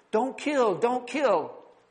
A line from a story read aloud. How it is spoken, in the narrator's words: Sammy pleads